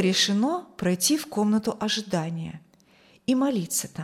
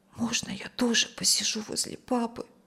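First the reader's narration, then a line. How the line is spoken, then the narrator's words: Whisper. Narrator (Russian): прошептала Юлия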